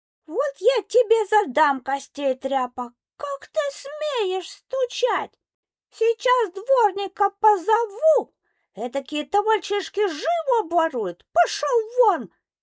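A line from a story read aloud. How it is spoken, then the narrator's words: Angry shout, old woman. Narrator (Russian): Сердясь, закричала старуха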